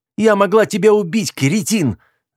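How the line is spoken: Angry shout. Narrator (Russian): закричала она

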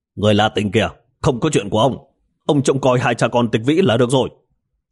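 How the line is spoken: Blunt shout. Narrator (Vietnamese): Jacob không khách giáo, quát

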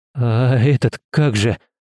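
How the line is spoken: Trembling voice. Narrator (Russian): дрожащим голосом спросил Тимофей

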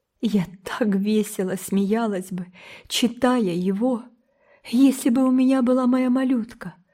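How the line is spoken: Sobbing speech. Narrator (Russian): всхлипывая, говорила она Мариле

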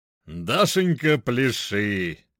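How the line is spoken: Joyful announcement. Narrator (Russian): радостно заявил

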